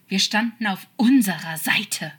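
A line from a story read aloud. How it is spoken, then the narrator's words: Desperate hiss. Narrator (German): zischte zu, ein wenig verzweifelt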